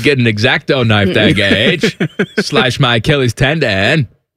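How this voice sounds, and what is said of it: Put-on Maine accent. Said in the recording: “my Maine impersonation”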